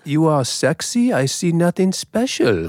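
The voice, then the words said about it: Put-on German accent. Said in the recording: “That's a spot on German. ... that's not PC in my accent there ... You're just doing a general kind of James Bond.”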